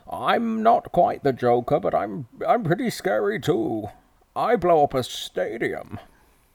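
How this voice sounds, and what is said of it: Muffled villain voice spoken into mug. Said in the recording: “If you got a mug, you can do the voice. ... When you're speaking to the cup ... Bane, he talks a bit like this”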